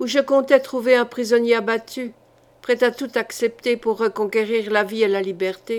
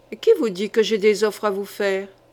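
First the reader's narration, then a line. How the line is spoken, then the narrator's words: Growling. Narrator (French): gronda Isabeau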